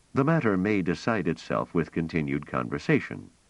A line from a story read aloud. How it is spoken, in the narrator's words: said Treviz dryly